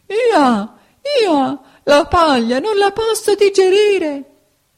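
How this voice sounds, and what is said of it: Braying, crying donkey voice. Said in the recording (Italian): “cominciò a piangere e a ragliare, e ragliando disse”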